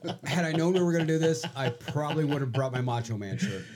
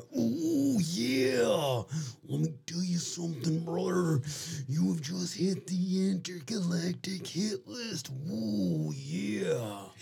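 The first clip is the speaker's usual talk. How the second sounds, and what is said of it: Macho Man Randy Savage impression. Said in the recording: “I may or may not do a Macho Man impersonation.”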